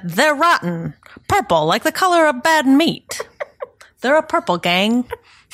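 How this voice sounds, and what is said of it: Put-on 1920s gangster accent. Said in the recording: “That's my terrible 20s gangster accent.”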